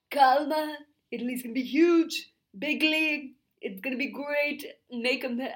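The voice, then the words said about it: Poor imitation of another person's voice. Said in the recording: “my Trump impression is my absolute worst one. I can't do it for some reason. It's something about the throat.”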